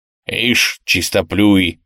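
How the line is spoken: Grumbled. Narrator (Russian): буркнул Штирлиц

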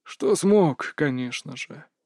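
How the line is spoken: Sigh. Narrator (Russian): вздохнул мастер Маэ

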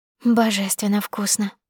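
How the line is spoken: Whisper. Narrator (Russian): прошептала я

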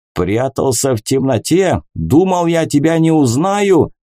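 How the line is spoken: Captain's shout. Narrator (Russian): выкрикнул капитан

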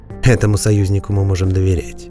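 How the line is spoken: Calm reply. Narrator (Russian): спокойно ответила Вирна

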